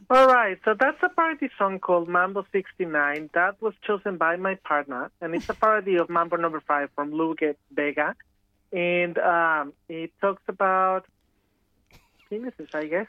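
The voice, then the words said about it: Professional journalistic broadcast delivery. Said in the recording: “You sounded so professional ... in a journalistic accent”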